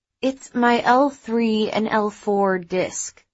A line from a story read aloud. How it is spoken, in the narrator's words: Eric replied in a tired voice